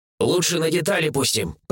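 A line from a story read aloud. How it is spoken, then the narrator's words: Grumbled from corner. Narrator (Russian): пробурчал из угла Сириус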